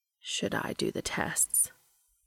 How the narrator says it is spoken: Castiel asks him gently

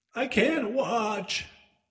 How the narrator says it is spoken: he yelled

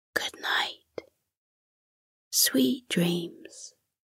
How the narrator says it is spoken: whispered

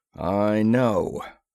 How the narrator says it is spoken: rumbled Sergeant Madden

